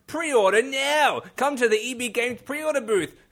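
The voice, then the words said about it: Put-on Australian accent, announcer style. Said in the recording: “your Aussie accent's way better than Steve's. Good job.”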